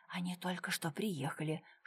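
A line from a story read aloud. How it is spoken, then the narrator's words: Whispered. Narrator (Russian): шепотом сообщил он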